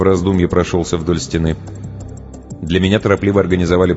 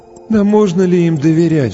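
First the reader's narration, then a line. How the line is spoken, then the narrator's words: Sighing. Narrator (Russian): вздохнул кто-то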